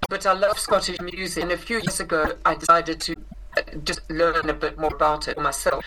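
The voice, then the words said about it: South African accent. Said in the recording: “I grew up in South Africa, which is where I inherited this accent.”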